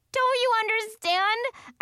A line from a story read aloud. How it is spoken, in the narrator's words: I yelled